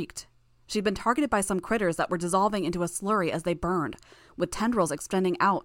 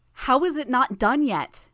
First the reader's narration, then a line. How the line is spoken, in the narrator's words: I shouted